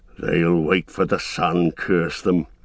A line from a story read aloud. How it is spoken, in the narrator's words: growled one of the guards